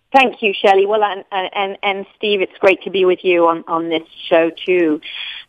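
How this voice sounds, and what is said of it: British English accent. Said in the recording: “a beautiful accent as well ... I am originally from across the pond, London, England”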